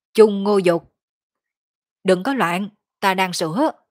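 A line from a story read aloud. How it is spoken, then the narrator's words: Roaring mid-fight. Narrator (Vietnamese): Đội trưởng Vương Càn vừa giết địch vừa gầm thét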